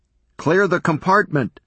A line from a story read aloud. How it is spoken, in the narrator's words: shouted